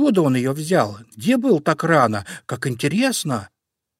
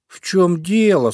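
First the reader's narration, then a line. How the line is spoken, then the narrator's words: Sleepy bunny voice. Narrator (Russian): сонным голосом спросил зайка Петя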